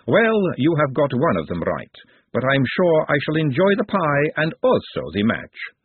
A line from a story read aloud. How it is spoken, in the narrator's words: Lady Margalotta turned her head away sharply and said